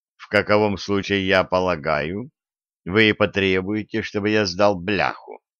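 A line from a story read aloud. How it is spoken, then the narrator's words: Calm. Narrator (Russian): Делагера спокойно продолжал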